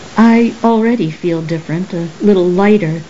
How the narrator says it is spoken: Saraswati said

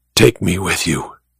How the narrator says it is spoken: she whispered

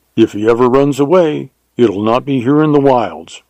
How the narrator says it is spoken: replied Emmett

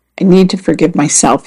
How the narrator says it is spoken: said

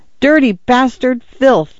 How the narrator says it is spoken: Arthur cried

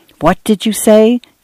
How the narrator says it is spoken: Dan whispered to Cynthia

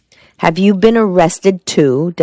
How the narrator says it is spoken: Della cried

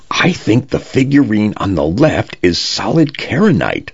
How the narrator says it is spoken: Jackson murmured into his comm, low enough not to trigger the translation device on the table

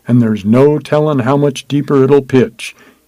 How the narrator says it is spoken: he sighed in a moment's pause

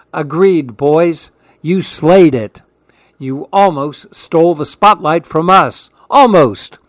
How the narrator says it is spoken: Tio Ross joked as they all laughed

